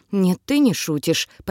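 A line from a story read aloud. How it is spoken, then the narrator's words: Muttering. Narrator (Russian): пробормотал Илай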